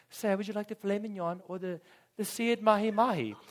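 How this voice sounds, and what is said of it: Badly done put-on fancy accent. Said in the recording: “this is butchering some kind of accent.”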